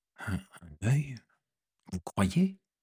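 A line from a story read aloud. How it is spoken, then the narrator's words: Stammered. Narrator (French): balbutia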